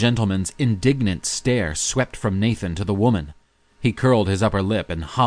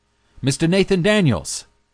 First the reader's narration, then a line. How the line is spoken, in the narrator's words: the man called loudly